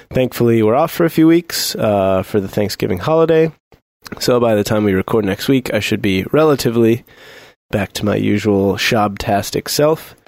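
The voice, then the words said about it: Hoarse, gravelly sick voice. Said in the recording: “suffering from some manner of wintry ailment ... my voice sounds like a loose cello string being rubbed across a bed of wet gravel”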